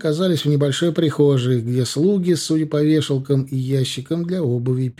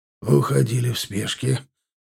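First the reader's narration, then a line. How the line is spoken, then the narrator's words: Barely audible. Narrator (Russian): едва слышно вынес вердикт Агланов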